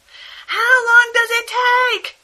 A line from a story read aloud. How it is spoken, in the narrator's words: Christine yelled